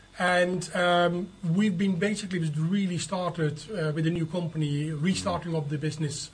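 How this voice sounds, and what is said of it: Dutch accent in English. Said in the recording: “You can hear from my accent that I am not from native Hartlepool... I've come from the Netherlands”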